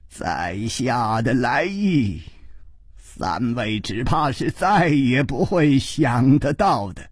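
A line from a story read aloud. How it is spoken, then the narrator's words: Laughing. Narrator (Chinese): 这位剑法的名家已经笑着说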